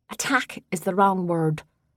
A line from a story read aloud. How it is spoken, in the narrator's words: Rose said